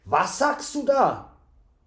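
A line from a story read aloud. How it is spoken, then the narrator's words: Horrified cry. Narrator (German): rief der Wirt entsetzt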